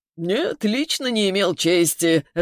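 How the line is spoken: Laughing, man. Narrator (Russian): рассмеялся мужик

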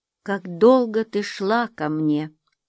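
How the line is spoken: Plain. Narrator (Russian): сказал он

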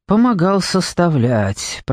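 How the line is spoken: Grumbled. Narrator (Russian): проворчал Марлоу

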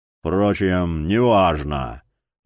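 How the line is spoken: Tired. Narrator (Russian): устало добавил маг

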